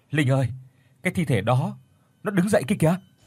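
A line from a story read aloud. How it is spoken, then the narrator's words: Terrified stammering call. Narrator (Vietnamese): chị Tuyết run rẩy sợ hãi lắp bắp gọi tôi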